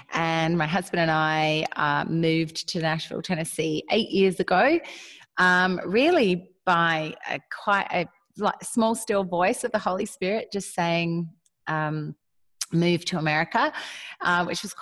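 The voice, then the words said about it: Australian accent. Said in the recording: “has a distinct Southern accent... definitely not a Nashville accent... I am Australian”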